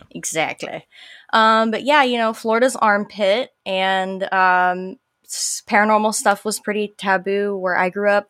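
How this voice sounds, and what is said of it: Southern American twang. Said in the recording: “Love that southern twang”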